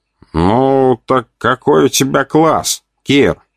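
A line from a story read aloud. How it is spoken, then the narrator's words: Nasal voice. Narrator (Russian): послышалось гнусавое справа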